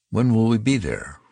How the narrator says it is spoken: Rogers asked

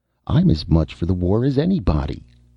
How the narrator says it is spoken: she said sharply

